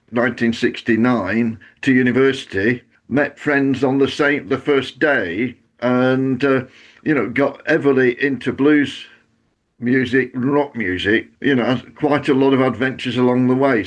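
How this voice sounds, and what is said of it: Northern English Bolton-area accent. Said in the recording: “as you notice, my accent came with me ... I'm from Lee, which is south of Bolton”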